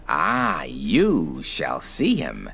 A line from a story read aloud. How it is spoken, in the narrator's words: the man said with a sneering laugh